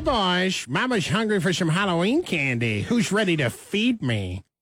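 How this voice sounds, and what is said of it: Impression of Caitlyn Jenner. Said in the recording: “This is ... doing four different voices. Caitlyn Jenner, who will kick it off”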